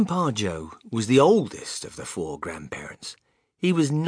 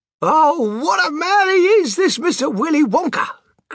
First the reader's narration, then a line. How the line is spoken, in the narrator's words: cried Grandpa Joe